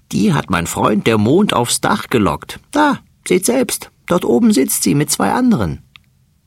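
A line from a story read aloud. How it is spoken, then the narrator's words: Fat male mouse laughing. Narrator (German): lacht der dicke Mäuserich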